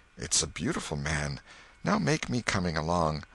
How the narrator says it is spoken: She was satisfied with the monster and whispered

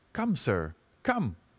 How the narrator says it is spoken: cried Frankland

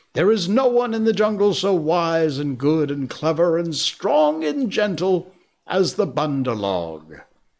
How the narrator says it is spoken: in mobs and shout

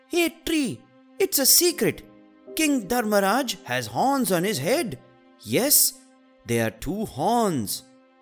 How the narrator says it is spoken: Bolu shouted

